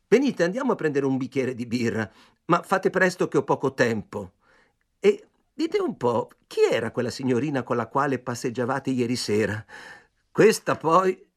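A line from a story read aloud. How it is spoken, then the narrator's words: Jealous exclamation. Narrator (Italian): esclamai, ingelosito al solo pensiero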